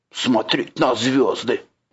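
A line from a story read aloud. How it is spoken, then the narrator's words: Grumbling. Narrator (Russian): проворчала Тролиха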